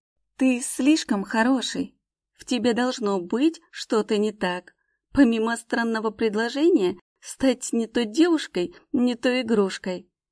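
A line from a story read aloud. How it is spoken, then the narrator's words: Moaning. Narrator (Russian): простонала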